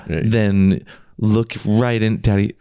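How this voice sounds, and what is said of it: Put-on sexy voice. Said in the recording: “that's what you think your sexy voice is”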